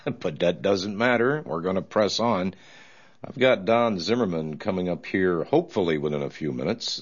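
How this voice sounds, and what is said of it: Sick, different-sounding voice. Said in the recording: “I sound a little different today, I'm sick as a dog”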